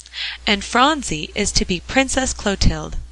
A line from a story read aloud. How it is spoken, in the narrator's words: cried Jasper